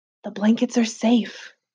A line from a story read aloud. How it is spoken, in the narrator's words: I whispered